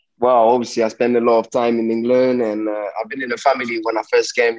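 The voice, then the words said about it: Fairly strong Cockney accent. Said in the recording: “you've got a Cockney accent, not as strong as Hector Bellerin, but quite strong”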